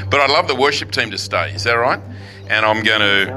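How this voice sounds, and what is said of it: Australian accent. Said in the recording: “Still have the Australian accent.”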